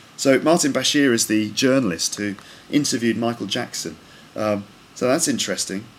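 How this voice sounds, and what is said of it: British BBC broadcasting accent. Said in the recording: “he thinks that my accent is similar to Martin Bashir... a typical kind of BBC accent... a kind of British broadcasting style accent”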